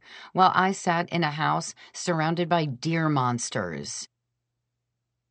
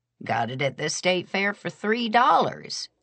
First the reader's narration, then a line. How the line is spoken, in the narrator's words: she said cheerfully